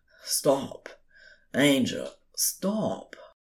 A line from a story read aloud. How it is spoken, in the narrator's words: murmured, between biting kisses